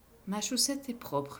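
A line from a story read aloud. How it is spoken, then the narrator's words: Soft, gentle. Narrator (French): dit-il doucement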